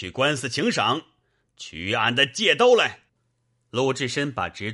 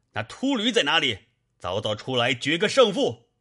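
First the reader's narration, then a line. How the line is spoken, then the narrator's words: Furious shout. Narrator (Chinese): 鲁智深大怒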